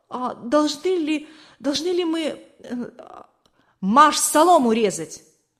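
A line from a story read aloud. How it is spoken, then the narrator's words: Frozen, frightened babbling. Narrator (Russian): не в силах сдвинуться с места, пролепетал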